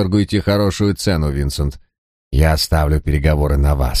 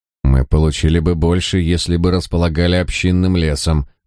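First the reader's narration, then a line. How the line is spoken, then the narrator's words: Grumbling. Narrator (Russian): пробурчал Дирик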